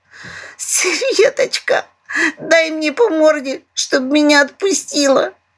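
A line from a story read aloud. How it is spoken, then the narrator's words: Bitter sobbing. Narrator (Russian): Горько разрыдалась дурачок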